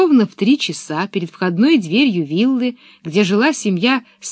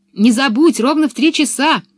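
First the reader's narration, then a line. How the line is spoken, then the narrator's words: Distant shout. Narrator (Russian): уже издали крикнула Анника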